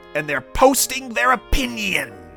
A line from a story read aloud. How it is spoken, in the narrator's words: he snarled with a sneer